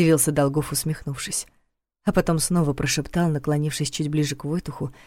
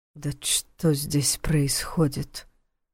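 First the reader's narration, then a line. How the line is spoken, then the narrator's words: Muttered. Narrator (Russian): пробормотал Войтых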